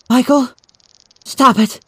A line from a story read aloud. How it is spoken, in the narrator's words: She begged as the tears trickled down